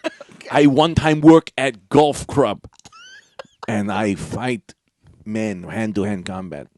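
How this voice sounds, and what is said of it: Mock Asian-accented voice. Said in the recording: “I am a white man doing an impression of an Asian man ... highly offensive”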